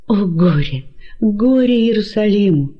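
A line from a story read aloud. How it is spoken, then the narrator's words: Passionate exclamation. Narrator (Russian): страстно воскликнул он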